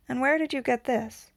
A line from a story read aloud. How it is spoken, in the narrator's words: Hill asked calmly